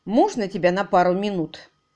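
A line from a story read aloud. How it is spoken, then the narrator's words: Sharp and cold. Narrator (Russian): Голос Кэрри Десбора звучал резко и холодно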